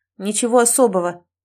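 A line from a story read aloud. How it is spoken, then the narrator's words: Barking shout. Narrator (Russian): гаркнул он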